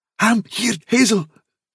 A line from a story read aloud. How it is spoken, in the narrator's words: said Dandelion, in a kind of choking gasp